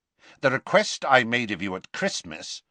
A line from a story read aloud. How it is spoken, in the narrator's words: said Scrimgeour, his voice cold now